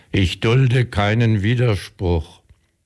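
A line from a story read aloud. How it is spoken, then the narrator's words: Proclaiming motto loudly. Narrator (German): rief ihren Wappenspruch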